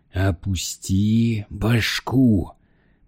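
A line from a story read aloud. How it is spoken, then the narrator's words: Hissed. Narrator (Russian): прошипел Лейт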